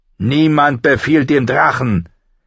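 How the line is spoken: Growling. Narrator (German): knurrte Viserys

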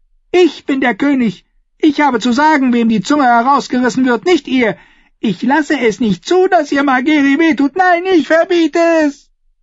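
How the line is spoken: Shrieking boy. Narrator (German): den kreischenden Jungen

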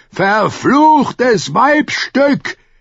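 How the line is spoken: Roaring. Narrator (German): brüllte Sir Emmon mit dem Sonnenblumenstahl

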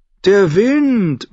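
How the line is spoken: Loud contradiction. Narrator (German): widersprach Saladossan laut

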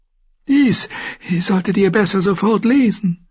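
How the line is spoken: Slightly breathless eunuch. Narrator (German): sagte der Eunuch ein wenig atemlos

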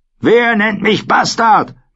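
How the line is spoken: Roar. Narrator (German): brüllte Craster

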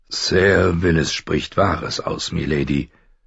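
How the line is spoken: Plain. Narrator (German): sagte Sir Roderick

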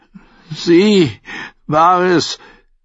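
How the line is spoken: Called out. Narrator (German): rief Davos

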